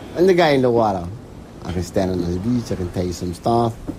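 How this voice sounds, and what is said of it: Thick Hawaiian accent. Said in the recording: “Hawaiians, or at least some Hawaiians, speak with a thick accent, dropping off parts of words, using other words I'd never heard”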